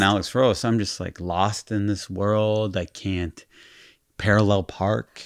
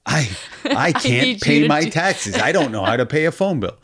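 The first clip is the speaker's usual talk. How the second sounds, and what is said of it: Imitates another person's voice. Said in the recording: “That was my imitation of Alice.”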